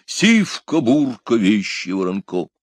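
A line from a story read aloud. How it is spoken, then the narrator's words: Mighty heroic shout. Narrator (Russian): Гайкнул богатырским голосом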